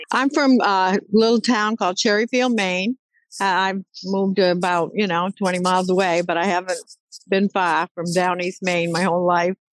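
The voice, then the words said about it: Down East Maine accent. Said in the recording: “I love your accent.”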